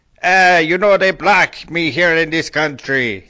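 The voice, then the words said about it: Vague made-up foreign accent. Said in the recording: “I kind of made it up. It's kind of an ambiguous foreigner accent. ... that weird accent”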